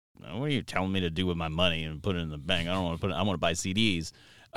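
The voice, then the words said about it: Surly younger-self voice impression. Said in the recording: “your young Tim impression ... I was also very surly”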